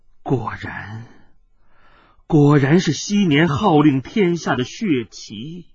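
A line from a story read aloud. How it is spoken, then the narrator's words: Slow, sighing. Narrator (Chinese): 九子鬼母忽然长长的叹息了一声，缓缓的说道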